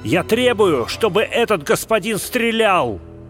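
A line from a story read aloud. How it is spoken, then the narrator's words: Furious shout. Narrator (Russian): Грант крикнул с бешенством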